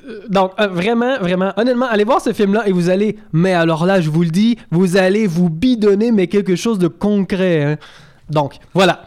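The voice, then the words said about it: Put-on southern French accent. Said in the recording (French): “J'ai voulu prendre l'accent ... C'était comme marseillais, c'était pas clair. ... peut-être un peu. Hein. Bon, enfin, le sud de la France, disons.”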